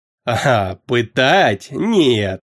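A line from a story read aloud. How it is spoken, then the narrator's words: Sudden laugh. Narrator (Russian): внезапно рассмеялся Бахмут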